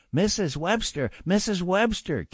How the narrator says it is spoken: Keith cried

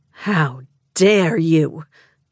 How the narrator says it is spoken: She snarled

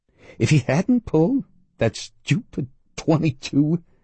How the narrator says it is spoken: the gunman said miserably

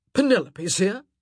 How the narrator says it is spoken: Anthony barked

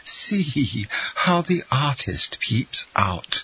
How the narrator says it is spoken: exclaimed Madame Danglars

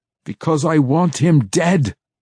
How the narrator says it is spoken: Massage cried

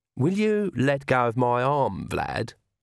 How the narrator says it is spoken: said Agnes sweetly

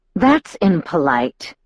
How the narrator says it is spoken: Edward growled

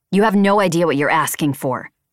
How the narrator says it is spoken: she snapped at me

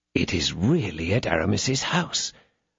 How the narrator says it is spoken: muttered D'Artagnan

